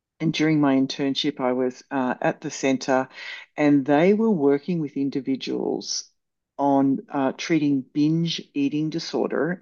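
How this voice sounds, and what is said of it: Australian accent. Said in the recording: “I had come out from Australia, hence the accent”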